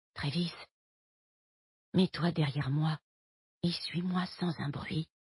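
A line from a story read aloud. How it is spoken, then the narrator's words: Whispered. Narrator (French): chuchote-t-elle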